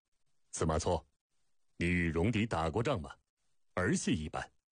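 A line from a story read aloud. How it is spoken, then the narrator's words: Stern, deep rebuke. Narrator (Chinese): 营前沉声斥责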